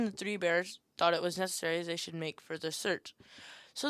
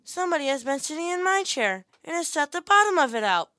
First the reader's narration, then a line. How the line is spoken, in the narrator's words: said the little small wee bear in his little small wee voice